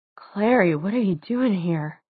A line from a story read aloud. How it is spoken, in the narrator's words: Her voice was muffled against his shirt